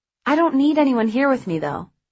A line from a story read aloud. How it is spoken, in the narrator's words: I said quickly